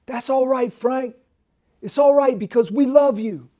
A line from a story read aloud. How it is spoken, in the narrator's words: a guy way up at the top of the audience stood up by himself, and he hollered out